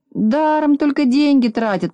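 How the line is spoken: Grumbling. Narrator (Russian): проворчал

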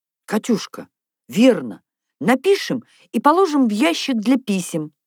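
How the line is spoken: Joyful exclamation. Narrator (Russian): обрадованно воскликнула Наташа

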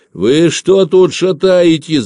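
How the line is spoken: Shouting. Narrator (Russian): закричал Собакин

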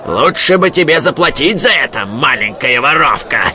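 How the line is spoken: Growling. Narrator (Russian): прорычал он

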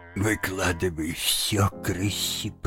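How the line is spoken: Whispered. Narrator (Russian): прошептал он

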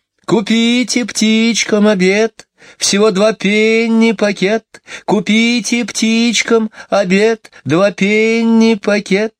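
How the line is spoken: Sing-song street cry. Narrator (Russian): Нараспев выкрикивала птичница одну и ту же строчку

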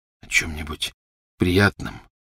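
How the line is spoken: Hoarse repetition. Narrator (Russian): хрипло повторил он

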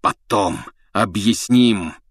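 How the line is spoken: Hoarse, rasping. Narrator (Russian): хрипел Блэк

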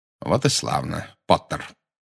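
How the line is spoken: Cold. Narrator (Russian): холодно сказал Снегг

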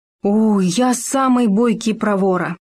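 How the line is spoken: Exclaimed, small animal. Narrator (Russian): воскликнул суслик

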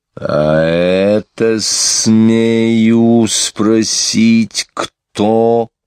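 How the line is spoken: Quiet menacing voice. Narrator (Russian): произнес он тихим, устрашающим голосом

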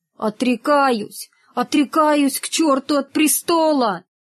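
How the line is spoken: Tearful speech. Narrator (Russian): Рогов сквозь слезы проговорил

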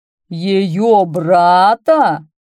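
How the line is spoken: Roaring. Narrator (Russian): проревел

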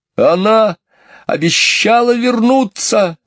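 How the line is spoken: Shouting. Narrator (Russian): закричал он

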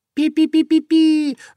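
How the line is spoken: Terrified squeaking mice. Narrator (Russian): в ужасе запищали мышки

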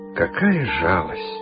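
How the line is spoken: Sighing while chewing. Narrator (Russian): вздохнул господин директор, мусоля 11-ю сушку

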